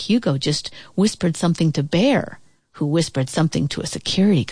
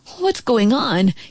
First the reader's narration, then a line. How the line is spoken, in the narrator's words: he asked nervously